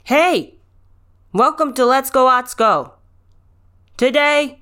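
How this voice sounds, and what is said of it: Shouting. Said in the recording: “why am I shouting?”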